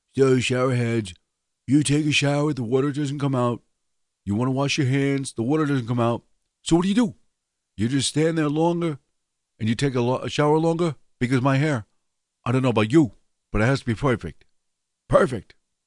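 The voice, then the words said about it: Imitates another person's voice. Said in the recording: “my Donald Trump impersonation”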